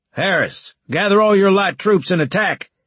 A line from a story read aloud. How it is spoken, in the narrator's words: Leeson shouted